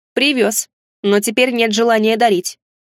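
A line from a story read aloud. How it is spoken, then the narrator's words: Snapped. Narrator (Russian): огрызнулся я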